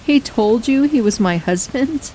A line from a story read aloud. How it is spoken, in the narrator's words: She laughed a little